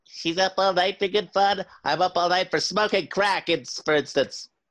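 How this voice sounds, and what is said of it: High-pitched helium voice. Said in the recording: “Your accent is helium.”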